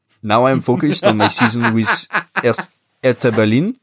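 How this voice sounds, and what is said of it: Put-on French accent. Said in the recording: “I'm doing a French accent.”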